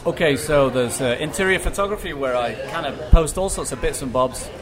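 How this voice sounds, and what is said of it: Jersey accent. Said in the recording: “that Jersey accent”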